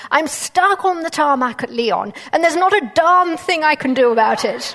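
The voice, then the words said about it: Loud, very posh English accent. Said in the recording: “a gentleman with a very loud voice... if you think I've got a posh English accent, I don't. This was a really posh English accent.”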